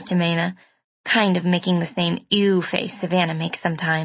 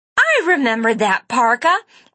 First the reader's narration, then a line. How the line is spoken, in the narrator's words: I screamed